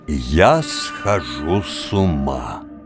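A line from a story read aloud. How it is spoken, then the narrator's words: Slow, almost solemn. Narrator (Russian): сказал медленно, почти торжественно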